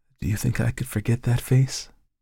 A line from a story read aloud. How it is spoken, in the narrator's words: She murmured